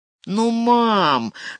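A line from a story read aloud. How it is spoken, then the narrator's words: Pleading whine. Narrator (Russian): заскулил Санто, попытавшись смягчить ее сердце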